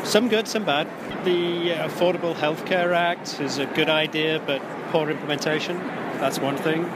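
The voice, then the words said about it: English accent. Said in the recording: “An accent there. ... Yes, I'm English.”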